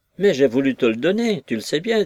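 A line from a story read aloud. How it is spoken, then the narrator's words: Hurt tone. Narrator (French): dit Maggie d'un ton blessé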